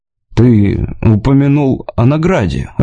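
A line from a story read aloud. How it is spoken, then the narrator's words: Timid opening. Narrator (Russian): робко начал Уилл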